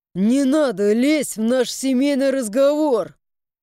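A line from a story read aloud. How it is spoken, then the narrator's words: Growling. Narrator (Russian): С рычанием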